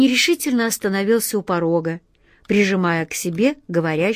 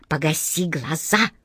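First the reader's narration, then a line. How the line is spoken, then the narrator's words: Quiet sharp scolding. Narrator (Russian): негромко прикрикнула на нее хозяйка таверны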